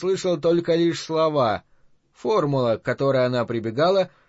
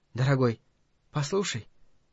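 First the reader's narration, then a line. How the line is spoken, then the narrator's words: Whisper. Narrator (Russian): она шепнула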